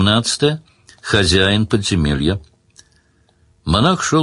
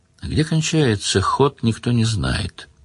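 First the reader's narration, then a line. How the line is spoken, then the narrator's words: Quiet giant monk. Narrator (Russian): тихо сказал великан-монах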